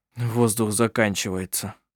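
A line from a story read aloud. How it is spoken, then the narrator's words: Muttered. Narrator (Russian): пробормотал Коль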